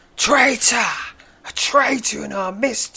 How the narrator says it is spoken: he screams

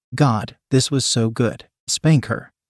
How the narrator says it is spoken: said Maria

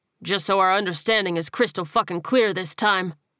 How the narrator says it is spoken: he said firmly

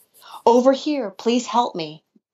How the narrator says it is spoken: a woman's voice yelped through the sobs

